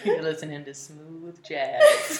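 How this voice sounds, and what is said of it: Radio announcer voice. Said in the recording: “It's my radio voice.”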